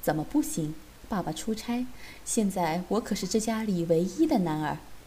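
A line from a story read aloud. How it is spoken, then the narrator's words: Leering laugh. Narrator (Chinese): 我色眯眯地 笑道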